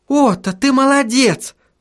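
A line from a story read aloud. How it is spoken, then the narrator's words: Shouted. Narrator (Russian): закричала Сахариса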